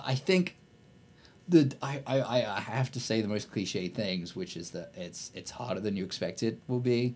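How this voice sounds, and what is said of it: British accent. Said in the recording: “I've got a British accent in America.”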